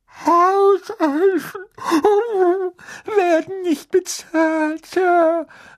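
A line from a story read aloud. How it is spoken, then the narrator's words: Choked squeak. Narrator (German): sagte sie mit ersticktem Piepsen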